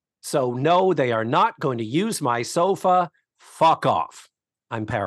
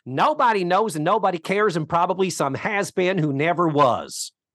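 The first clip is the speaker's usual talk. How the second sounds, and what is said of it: Acerbic, cutting imitation of a character. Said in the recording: “in her acerbic, cutting way ... I don't do a very good Mama impression ... I'm vocally challenged right now”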